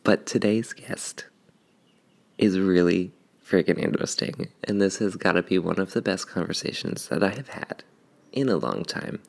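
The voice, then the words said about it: Whispering. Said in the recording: “I'm whispering. I think I'm whispering”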